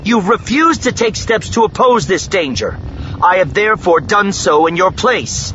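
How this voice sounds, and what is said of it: Loud, forceful speech. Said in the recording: “Leia said in a loud voice.”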